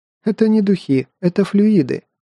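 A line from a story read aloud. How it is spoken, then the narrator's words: Loud laughter. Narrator (Russian): расхохоталась она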